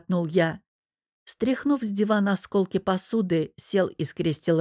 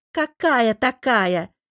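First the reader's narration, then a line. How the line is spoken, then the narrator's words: Cartoonish voice, snapping. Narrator (Russian): исказив голос до мультяшного, огрызнулся он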